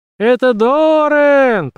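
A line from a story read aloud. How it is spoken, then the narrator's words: Shouted. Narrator (Russian): прокричала она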